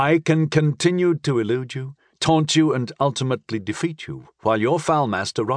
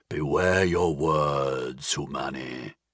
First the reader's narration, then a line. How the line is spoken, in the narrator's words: growled